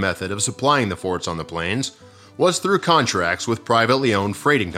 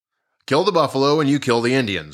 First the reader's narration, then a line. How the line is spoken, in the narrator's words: the general said